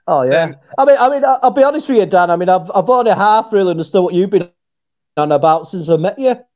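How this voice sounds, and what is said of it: Strong, hard-to-understand accent. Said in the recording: “people start to understand your accent. ... The first time I heard you talk, I was like, I can't understand anything he's saying.”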